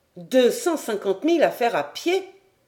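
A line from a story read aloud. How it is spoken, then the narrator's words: Young man exclaiming. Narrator (French): s'écria le jeune capitaine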